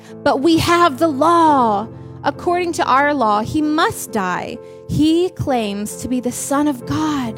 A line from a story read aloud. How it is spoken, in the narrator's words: the Jewish leaders shouted back